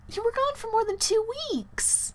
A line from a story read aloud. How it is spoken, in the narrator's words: Mary exclaimed